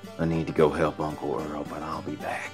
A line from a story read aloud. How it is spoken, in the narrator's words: he whispered